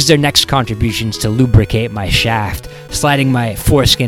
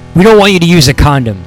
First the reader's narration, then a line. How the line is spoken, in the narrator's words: Tom Jefferson blurted out abruptly